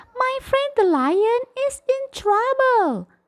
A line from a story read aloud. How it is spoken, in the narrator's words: cried the mouse